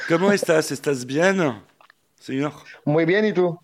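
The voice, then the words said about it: Put-on Spanish accent. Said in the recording (French): “bel, accent. bel accent”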